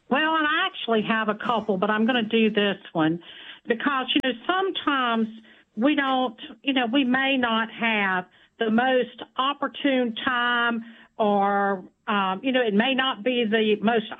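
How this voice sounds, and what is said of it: Noticeable regional accent. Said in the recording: “I love your accent. ... I love the way you talk.”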